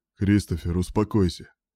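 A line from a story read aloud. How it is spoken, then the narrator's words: Cold repetition. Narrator (Russian): повторил холодно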